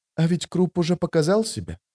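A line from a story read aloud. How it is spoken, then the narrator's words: Quiet woman. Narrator (Russian): тихо проговорила она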